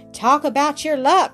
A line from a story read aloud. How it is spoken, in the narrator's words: cried Mike, a happy smile on his freckled face